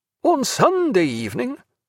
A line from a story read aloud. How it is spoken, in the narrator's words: cried Graham